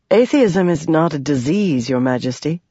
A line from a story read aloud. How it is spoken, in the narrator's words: Yasna said dryly